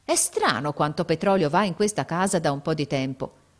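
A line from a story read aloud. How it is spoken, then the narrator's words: Exclaiming. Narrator (Italian): uscì in questa esclamazione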